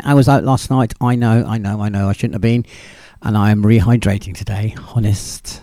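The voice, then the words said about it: Strained, fading voice. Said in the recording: “My voice is going.”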